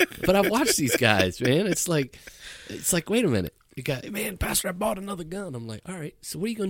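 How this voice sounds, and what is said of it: Usual voice. Nothing is said of it.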